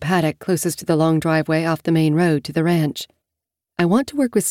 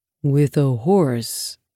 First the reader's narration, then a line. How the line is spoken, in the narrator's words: He asks, his tone not quite fearful, but not happy either